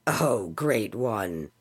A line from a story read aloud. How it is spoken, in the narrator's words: Alian's father mumbled, casting Dubjila a threatening look